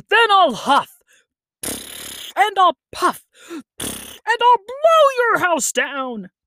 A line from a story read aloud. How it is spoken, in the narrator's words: The wolf gave a laugh, and said